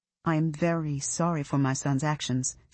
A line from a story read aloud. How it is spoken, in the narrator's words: she said